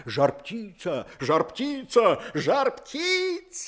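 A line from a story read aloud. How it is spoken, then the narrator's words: Animals shouting, many voices. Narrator (Russian): закричали звери на разные голоса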